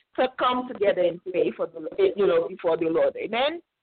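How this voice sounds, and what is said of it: Noticeable foreign accent. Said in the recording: “I have an accent”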